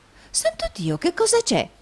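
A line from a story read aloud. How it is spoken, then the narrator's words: Woman's feigned astonished exclamation. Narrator (Italian): esclamò la signorina Price, fingendo la più alta meraviglia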